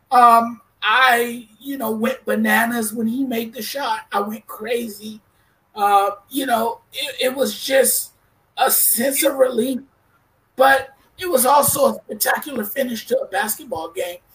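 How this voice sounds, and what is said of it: Hoarse, worn-out voice. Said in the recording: “my voice is shot right now”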